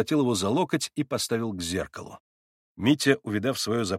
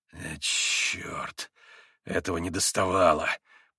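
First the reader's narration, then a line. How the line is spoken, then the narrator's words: Angry muttering. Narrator (Russian): Пробормотал он со злобой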